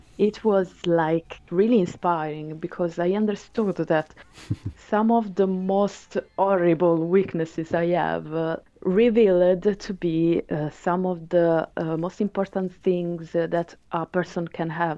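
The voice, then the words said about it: Italian accent in English. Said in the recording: “I have an Italian accent”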